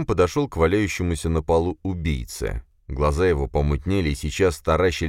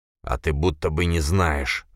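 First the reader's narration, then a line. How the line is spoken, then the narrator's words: Exhausted wheeze. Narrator (Russian): захрипел убийца из последних сил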